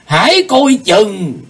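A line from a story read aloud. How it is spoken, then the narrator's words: Terrified shout. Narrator (Vietnamese): Bác Phong Hòa Thượng quát giọng khiếp đảm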